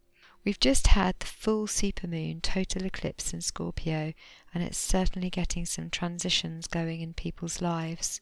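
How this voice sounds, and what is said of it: Hoarse, fading voice. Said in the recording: “As you might be able to hear, I'm losing my voice a little bit at the moment after an illness”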